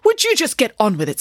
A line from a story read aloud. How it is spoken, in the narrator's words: snapped Nanny Piggins